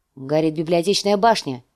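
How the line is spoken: Plain. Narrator (Russian): сказал он

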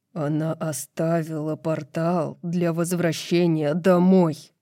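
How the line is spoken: Growled. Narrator (Russian): прорычал Хант

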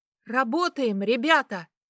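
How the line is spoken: Shout. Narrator (Russian): крикнула Саманта

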